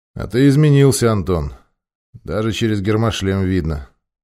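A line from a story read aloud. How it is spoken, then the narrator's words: Calm. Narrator (Russian): спокойно произнес майор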